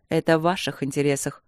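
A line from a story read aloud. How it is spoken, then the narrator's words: Dry reply. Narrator (Russian): сухо ответил природник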